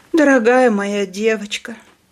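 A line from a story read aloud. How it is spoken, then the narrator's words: Tearful wailing. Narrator (Russian): причитала она сквозь слезы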